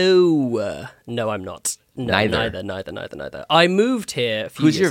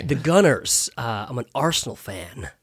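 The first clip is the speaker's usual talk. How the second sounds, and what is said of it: Put-on American accent. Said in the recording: “American accent coming out”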